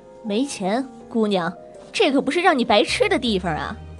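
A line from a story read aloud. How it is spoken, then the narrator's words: Deliberately loud, shaming. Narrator (Chinese): 他故意说的很大声，引起更多人的注意，好让欠钱的人难堪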